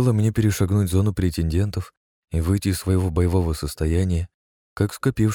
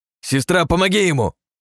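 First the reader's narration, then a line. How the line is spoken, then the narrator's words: Bellowing yell. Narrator (Russian): Буйволом завопил Ростислав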